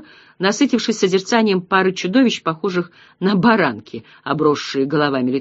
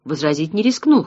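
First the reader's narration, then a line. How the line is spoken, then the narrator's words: Snort. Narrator (Russian): хмыкнул Ратибор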